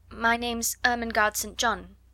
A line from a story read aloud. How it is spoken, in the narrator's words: she answered